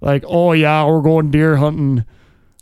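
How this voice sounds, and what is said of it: Put-on Yooper Canadian-style accent. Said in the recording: “the like rednecks of that part of the world ... that's that kind of how the like, Canadian ... da Youpers ... accent is ... Eh?”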